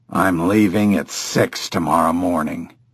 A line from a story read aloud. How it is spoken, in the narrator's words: Barton grumbled